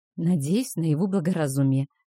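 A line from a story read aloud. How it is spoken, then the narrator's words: Sighed. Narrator (Russian): вздохнула она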